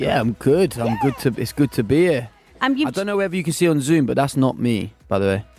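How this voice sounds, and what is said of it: British accent. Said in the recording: “It's good to hear a British accent down under again”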